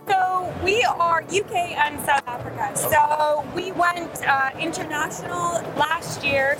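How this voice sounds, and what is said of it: Foreign, non-British accent. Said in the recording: “from your accent, you're not from these shores”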